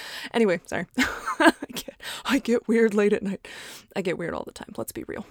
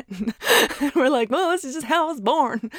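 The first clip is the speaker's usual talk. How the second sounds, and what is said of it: Put-on country accent. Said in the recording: “then we start getting a country accent.”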